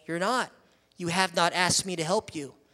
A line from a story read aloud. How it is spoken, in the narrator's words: the father said calmly